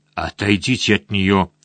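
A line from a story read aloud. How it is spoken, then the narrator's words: Hoarse. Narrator (Russian): прохрипел Лаксфорд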